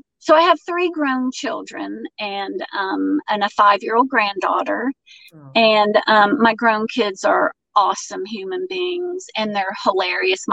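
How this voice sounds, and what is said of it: Georgia Southern accent. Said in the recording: “moved to Georgia ... None of them have an accent. I'm the one that picked it up.”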